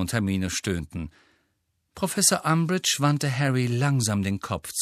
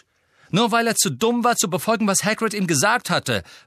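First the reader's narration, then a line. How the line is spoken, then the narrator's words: Angry interjection. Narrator (German): warf Harry zornig ein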